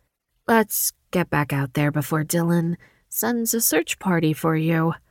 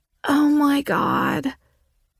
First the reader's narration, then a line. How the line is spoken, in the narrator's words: Riley gasped the words